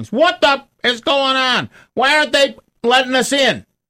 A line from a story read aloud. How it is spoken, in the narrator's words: she starts screaming at the top of her lungs